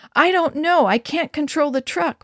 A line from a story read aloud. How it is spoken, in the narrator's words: Mom answered frantically